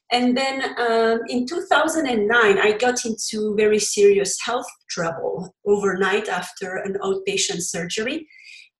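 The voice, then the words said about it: Belgian French accent in English. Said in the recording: “you heard from my accent. English is not my first language. I come from Belgium and I speak French originally.”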